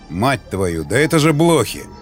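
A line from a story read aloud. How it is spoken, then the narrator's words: Startled exclamation. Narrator (Russian): воскликнул он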